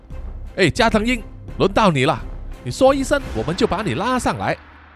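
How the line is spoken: Shouting down the cave. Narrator (Chinese): 我就对着洞穴下面大喊说

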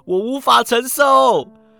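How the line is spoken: Loud shout. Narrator (Chinese): 石谷基大喊

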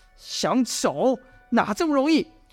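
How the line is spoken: Plain. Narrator (Chinese): 说着

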